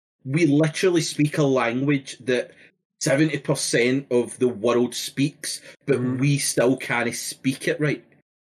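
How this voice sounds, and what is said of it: Glaswegian Scottish accent. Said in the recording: “the Glaswegian accent is ... most Scottish people”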